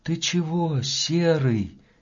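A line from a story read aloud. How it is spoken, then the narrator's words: Quiet question. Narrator (Russian): тихо спросил Ваня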